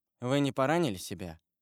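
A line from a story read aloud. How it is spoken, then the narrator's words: Cold question. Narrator (Russian): холодно спросил Морель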